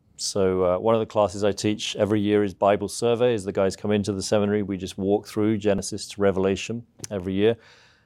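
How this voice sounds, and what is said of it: Southeast English British accent. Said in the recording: “that's a real accent ... This is a real accent ... I'm from the UK originally ... I grew up in the southeast of England”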